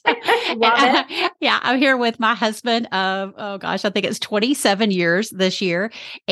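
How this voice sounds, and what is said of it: Texan accent. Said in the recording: “I'm coming at you from Dallas, Texas, if you can't tell from my accent”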